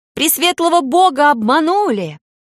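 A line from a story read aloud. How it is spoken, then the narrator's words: Defiant female shout. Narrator (Russian): строптиво выкрикнул женский голос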